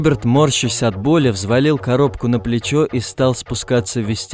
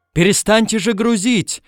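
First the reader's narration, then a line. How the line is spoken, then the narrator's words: Shouting close to ear. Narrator (Russian): закричал у него над ухом Пагава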